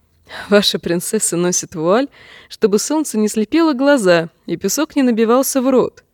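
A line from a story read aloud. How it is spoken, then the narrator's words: Forced laugh. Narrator (Russian): принужденно засмеялась она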